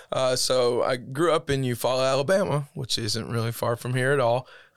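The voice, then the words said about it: Strained, worn-out voice. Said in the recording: “My voice is getting a little shot. Last night's service kind of got me ... Sorry, my voice is shot.”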